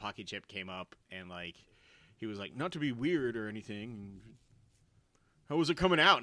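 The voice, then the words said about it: Imitates another person's voice. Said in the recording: “That sounded just like Andre the Giant. ... It was a good impression.”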